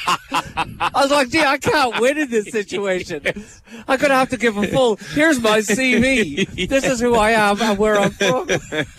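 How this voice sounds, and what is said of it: Irish accent. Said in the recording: “heard my accent... I'm actually from a little village in Ireland called Milltown”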